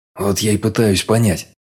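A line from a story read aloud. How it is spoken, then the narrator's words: Irritated grumble. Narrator (Russian): раздраженно буркнул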